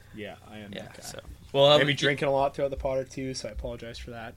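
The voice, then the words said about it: Congested, slightly off voice. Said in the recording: “Just a bit of a cough now, and you know, stuffy nose. Why my voice might be a little bit off.”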